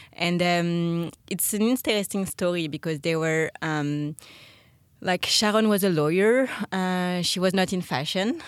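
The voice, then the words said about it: French accent. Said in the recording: “ba&sh is a French brand with a very strong French heritage. I think my accent can speak for that.”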